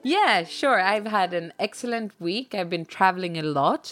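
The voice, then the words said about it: Voice affected by a cold. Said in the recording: “my voice is a little bit, in combination with the flights and a little bit of a cold and everything ... a sexy podcast voice”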